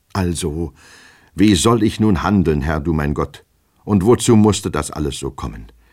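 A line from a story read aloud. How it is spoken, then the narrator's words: Despairing cry. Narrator (German): rief er endlich verzweifelt aus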